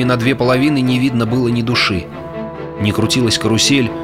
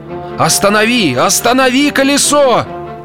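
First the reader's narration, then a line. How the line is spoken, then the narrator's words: Shout. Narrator (Russian): закричал то ли Джозеф Пайки, то ли мистер Куджер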